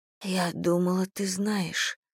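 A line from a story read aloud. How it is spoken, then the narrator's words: Whispered. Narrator (Russian): прошептала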